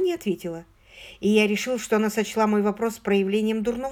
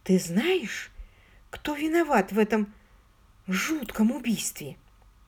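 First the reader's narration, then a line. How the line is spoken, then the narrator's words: Very quiet whisper. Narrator (Russian): прошептала она совсем тихо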